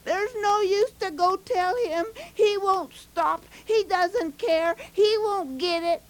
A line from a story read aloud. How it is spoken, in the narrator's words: hollering